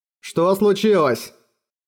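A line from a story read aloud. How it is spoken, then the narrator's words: Shout. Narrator (Russian): крикнул плотник Фиск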